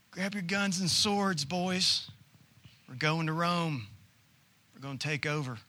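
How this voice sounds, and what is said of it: Mock Southern US accent. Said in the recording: “As if they have a southern accent in Jerusalem.”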